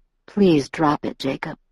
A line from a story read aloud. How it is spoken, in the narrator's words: Edward said in an even voice